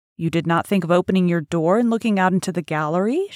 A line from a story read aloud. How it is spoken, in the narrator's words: she further asked